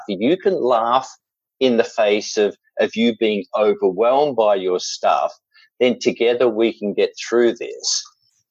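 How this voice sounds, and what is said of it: Australian accent. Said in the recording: “there's an element of being Australian ... with this accent, I can say some outrageous and silly things. And by the time anyone who's not Australian has understood what I've said”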